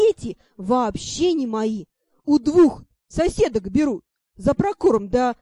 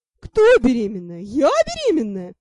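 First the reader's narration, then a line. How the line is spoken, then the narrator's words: Girl guffawing. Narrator (Russian): Девка захохотала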